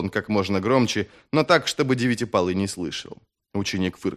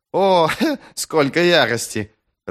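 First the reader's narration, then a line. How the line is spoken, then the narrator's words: Laughing student. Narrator (Russian): рассмеялся ученик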